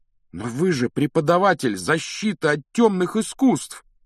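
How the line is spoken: Exclamation. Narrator (Russian): воскликнул Гарри

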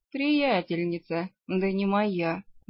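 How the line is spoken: Sighing vampire. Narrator (Russian): вздохнул вампир

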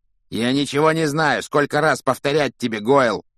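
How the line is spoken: Growled. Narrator (Russian): рыкнул на него Малфой

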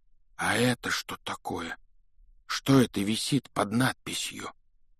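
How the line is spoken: Trembling voice. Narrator (Russian): спросил Рон дрогнувшим голосом

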